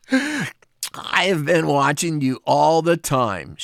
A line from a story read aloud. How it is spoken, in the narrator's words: she gasped